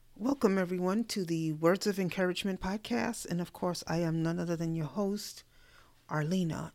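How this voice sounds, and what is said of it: Hoarse, weakening voice. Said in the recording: “my voice is kind of leaving me a little bit”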